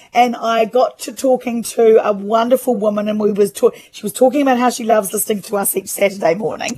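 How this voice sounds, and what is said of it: Slightly hoarse voice. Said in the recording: “you'll have to excuse my voice. I've been talking for 3 days ... and so I am a little bit hoarse”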